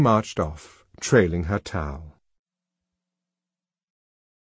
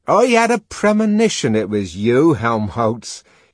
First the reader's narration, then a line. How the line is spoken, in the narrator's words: he shouted